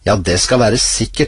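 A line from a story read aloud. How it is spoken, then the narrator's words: Plain. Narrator (Norwegian): svarte enken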